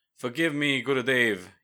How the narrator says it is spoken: he cried

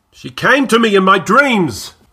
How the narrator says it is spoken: the old man shouted suddenly, his eyes opening wide and wild

